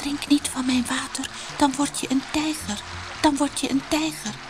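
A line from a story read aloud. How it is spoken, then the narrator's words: Soft murmuring brook. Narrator (Dutch): het beekje zachtjes zeggen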